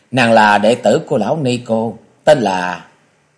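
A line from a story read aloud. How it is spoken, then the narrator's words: Giggling. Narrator (Vietnamese): Phù Tế Quyên cười khúc khích nói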